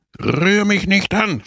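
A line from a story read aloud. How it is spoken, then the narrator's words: Screamed. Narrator (German): schrie Don Camillo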